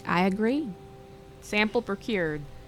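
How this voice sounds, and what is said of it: Southern American accent. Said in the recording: “Wait, why am I Southern? ... You have a quantum accent.”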